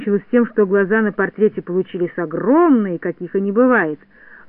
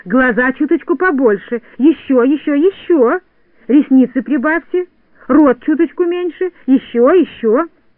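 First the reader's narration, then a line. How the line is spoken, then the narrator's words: Shouting. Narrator (Russian): кричала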